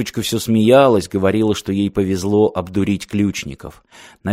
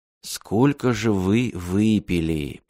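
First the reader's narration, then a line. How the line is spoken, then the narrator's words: Muttering. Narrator (Russian): пробормотал Мартин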